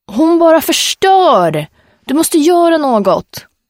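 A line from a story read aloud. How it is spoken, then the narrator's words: Screamed. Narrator (Swedish): skrek Sip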